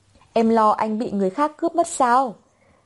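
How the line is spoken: Laughing. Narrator (Vietnamese): Dược Thiếu Phàm bật cười

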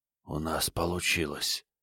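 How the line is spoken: Whisper. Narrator (Russian): прошептал Крейг

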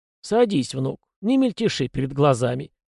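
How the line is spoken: Firm, lightly mocking voice. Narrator (Russian): сказал он твердым голосом с легкой насмешкой

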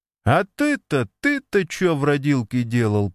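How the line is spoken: Speaking through laughter. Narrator (Russian): продираясь сквозь смех, выговорил Еська Евсей

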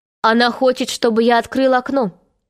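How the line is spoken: Plain. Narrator (Russian): сказал Питер

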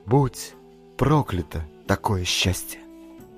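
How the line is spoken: Undertone. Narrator (Russian): вполголоса сказала Челе

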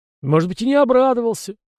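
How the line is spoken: Thoughtful hmph. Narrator (Russian): хмыкнул князь, задумавшись

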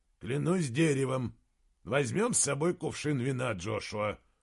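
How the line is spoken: Grumbling. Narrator (Russian): проворчал герцог

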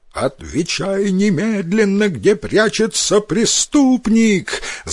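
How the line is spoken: Yelling prince. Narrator (Russian): заорал на Риске князь

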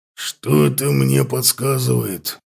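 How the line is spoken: Growled. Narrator (Russian): прорычал Лотар

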